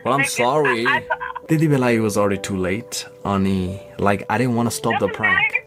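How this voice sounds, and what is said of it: British and Nepali mixed English accent. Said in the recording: “He has like a British accent too, which is hilarious. It's like it's a weird mix of like Nepali accent. ... Nepali English and British.”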